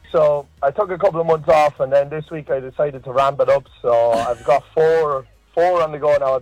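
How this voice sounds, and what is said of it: Strong accent. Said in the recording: “you got quite the accent there”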